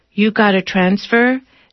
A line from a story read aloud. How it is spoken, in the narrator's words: she asks in a monotone